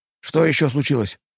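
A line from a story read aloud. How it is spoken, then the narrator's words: Frightened whisper. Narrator (Russian): испуганно прошепел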